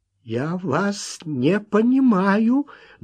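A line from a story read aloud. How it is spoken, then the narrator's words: Trembling voice. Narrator (Russian): дрожащим голосом ответил Уэнтворт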